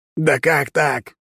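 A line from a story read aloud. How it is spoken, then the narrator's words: Growled. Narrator (Russian): прорычал Торрен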